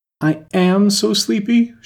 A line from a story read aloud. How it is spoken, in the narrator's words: she moaned